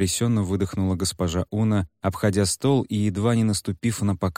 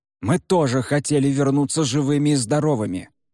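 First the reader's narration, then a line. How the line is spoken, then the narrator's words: Man barking. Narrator (Russian): рявкнул мужчина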